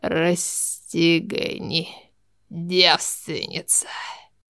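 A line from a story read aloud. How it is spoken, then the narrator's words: Hoarse, unrecognizable voice. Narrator (Russian): Сказал хриплым, уже неузнаваемым голосом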